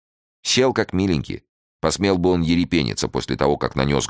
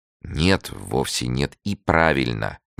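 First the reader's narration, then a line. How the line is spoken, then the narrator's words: Menacing. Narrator (Russian): грозно молвила она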